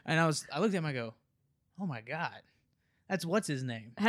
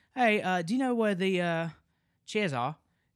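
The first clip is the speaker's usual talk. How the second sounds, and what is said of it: Imitated Australian accent, not very good. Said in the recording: “speak Australian... I can't do a good accent.”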